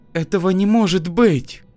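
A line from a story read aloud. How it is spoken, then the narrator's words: Moaned. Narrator (Russian): простонала Регина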